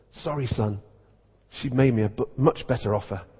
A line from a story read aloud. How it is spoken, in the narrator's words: The vicar whispered